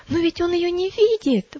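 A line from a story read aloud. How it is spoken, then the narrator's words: Exclaimed. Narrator (Russian): воскликнула Милость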